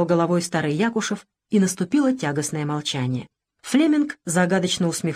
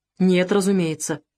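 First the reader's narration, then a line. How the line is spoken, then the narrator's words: German's cold smirk. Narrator (Russian): усмехнулся холодно немец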